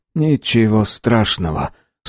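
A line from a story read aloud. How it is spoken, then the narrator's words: Calm reply. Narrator (Russian): спокойно ответил латыш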